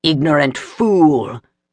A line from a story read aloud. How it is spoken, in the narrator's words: roared, arrogant despite his pain